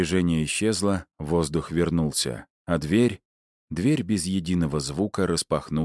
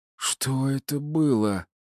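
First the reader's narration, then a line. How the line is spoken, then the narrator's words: Hoarse, strained. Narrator (Russian): прохрипела Кейт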